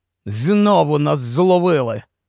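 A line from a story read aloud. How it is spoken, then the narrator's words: Hoarse. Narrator (Ukrainian): хрипло сказав Кості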